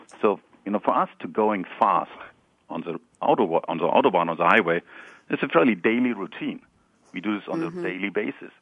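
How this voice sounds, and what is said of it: German accent. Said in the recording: “as you might recognize from my accent, I'm German”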